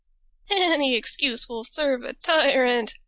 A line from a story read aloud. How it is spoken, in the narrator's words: she gasped out